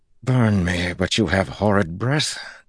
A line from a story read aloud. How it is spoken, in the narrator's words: Talmanis growled